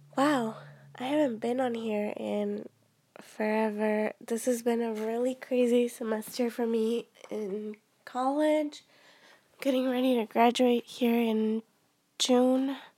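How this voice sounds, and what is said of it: Voice sounding different, unwell. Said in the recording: “my voice sounds a little bit different. I've been sick.”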